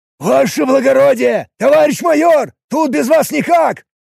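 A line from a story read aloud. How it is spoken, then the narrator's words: Shouting across. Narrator (Russian): прокричал дежурный в сторону другого офицера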